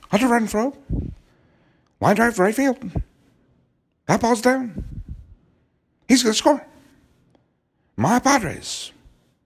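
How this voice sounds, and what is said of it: Poor impression of Padres announcer's cadence. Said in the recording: “that's a terrible impersonation, but he has a certain rhythm and cadence”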